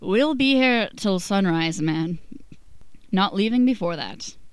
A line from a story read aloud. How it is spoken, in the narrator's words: Roger hiccups and slurs